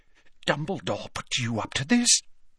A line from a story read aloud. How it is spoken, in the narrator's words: whispered Slughorn